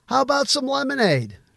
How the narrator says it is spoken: called out

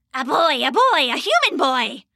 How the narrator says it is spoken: screeched

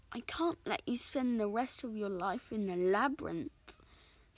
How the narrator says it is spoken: sighed Audrain

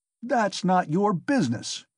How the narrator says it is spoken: he shouted at last with unnatural loudness

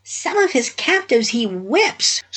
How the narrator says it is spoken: squeaked the weasel's head

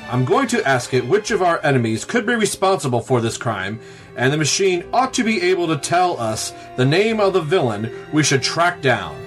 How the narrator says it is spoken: Batman exclaimed to the boy wonder

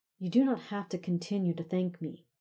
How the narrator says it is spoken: said in an exasperated tone

